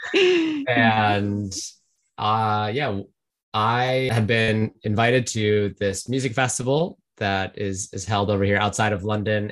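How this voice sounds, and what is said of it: American accent. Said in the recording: “American originally, as most listeners can tell from my accent.”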